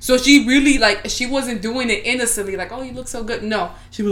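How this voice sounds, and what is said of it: Usual voice. Nothing is said of it.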